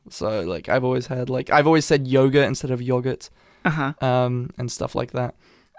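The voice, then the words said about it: British accent with American tinge. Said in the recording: “I do have, like, an Americanized accent ... I can hear the half... The half nature of it. ... I can tell that you have a British accent”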